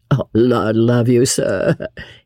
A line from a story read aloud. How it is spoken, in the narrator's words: muttered good-humouredly